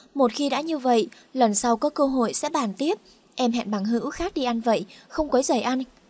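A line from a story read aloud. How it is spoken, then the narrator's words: Forced loud laugh. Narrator (Vietnamese): Liên Nhạc Nhã vẻ mặt cứng đờ, ngay lập tức giả bộ cười lớn nói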